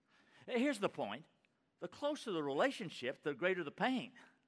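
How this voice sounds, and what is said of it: Texas accent. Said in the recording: “your Texas accent”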